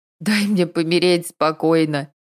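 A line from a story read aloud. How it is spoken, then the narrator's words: Moan. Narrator (Russian): простонала Надя с утра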